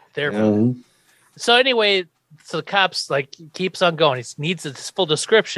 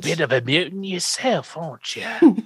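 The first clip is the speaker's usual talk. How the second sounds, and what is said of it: Impression of a movie character. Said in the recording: “Professor X from that one X-Men movie ... That's my impersonation.”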